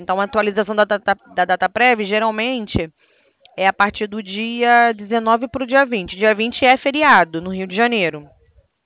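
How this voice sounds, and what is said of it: Rio de Janeiro Portuguese accent. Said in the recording (Portuguese): “Você é do Rio, eu vi o sotaque”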